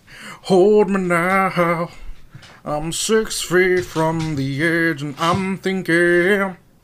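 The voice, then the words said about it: Imitates another person's singing voice. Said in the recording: “that Creed voice? ... I'm a little too good at that.”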